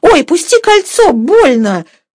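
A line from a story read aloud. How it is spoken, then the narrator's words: Crying out in pain. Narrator (Russian): вскрикнула Катерина Львовна, когда Сергей сжал своей руке ее руку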